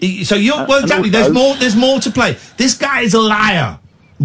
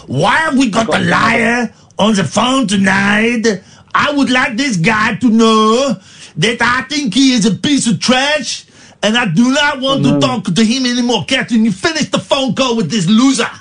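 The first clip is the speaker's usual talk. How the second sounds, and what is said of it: Put-on accent drifting into French. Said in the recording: “This is a good accent. It started off as Schwarzenegger and then it became a Frenchman ... That's not a bad voice”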